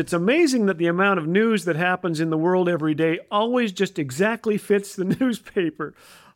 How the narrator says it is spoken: laugh

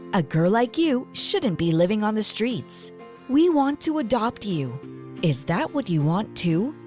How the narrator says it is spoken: she asked

